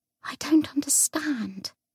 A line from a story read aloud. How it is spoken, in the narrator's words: she whispered